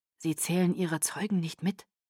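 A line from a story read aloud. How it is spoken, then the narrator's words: Quiet. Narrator (German): sagte Edward leise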